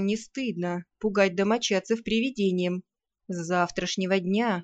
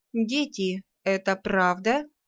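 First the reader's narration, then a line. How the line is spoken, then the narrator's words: Stern question. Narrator (Russian): строго спросила хозяйка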